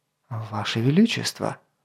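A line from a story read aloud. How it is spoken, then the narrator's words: Soft. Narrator (Russian): мягко заговорил Гавен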